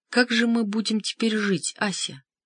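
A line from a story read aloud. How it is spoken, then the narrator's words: Quiet question. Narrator (Russian): тихо спросила Александра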